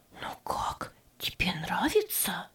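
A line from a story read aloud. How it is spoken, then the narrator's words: Whispered in ear. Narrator (Russian): шепнула она на ухо Фредди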